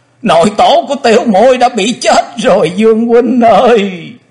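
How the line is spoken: Wailing, crying in grief. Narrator (Vietnamese): Quỳnh Dao đang khóc, thê thảm gào to

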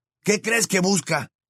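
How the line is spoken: Shouting. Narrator (Spanish): gritó Ron

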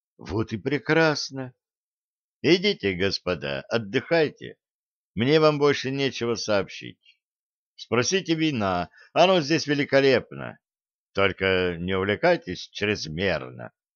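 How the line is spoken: Said softly. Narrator (Russian): полковник произнес мягко

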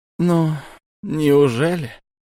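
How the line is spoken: Sighing. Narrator (Russian): вздохнул шаман

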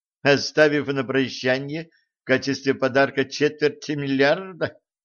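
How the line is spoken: Laughing. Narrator (Russian): рассмеялась Алиса

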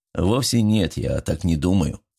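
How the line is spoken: Plain. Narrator (Russian): ответил мужчина

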